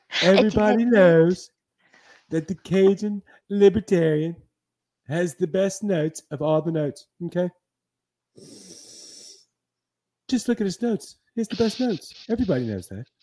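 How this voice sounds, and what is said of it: Donald Trump impression. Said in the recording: “my Trump impersonation”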